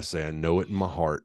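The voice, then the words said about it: Put-on North Carolina accent. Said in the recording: “I use my best North Carolina accent.”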